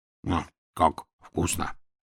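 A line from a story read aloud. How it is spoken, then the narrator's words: Whisper, bear cub. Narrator (Russian): шептал медвежонок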